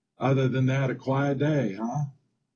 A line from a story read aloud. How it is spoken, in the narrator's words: In his slow Alabama drawl, Walter said